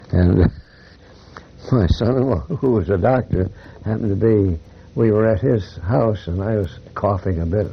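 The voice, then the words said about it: Voice marked by lingering bronchitis. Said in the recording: “you can tell from my voice, I still have a residual bronchitis”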